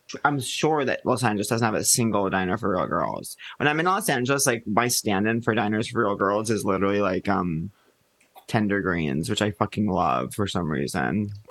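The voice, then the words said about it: Low-energy vocal fry delivery. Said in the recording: “low energy vocal fry”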